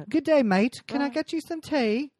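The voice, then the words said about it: Bad put-on English accent, Australian-sounding. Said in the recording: “all of a sudden I have an English accent ... I have the worst accent ... Mate, you're an Australian English person”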